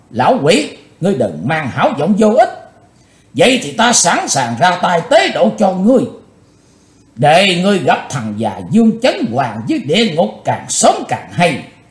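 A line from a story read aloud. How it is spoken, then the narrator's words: Furious loud shout. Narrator (Vietnamese): nổ giận quát to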